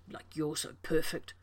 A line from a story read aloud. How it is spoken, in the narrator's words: John muttered